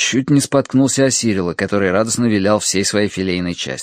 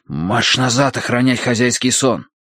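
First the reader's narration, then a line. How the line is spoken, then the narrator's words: Hiss. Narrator (Russian): прошипел я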